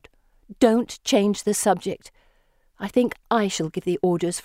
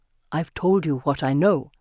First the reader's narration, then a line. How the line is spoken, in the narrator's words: he says